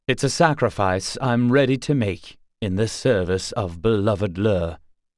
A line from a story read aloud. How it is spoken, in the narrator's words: he said gravely